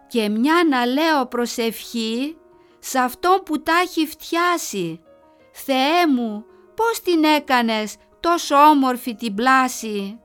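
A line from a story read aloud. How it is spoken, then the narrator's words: Teacher continuing. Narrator (Greek): η δασκάλα συνέχισε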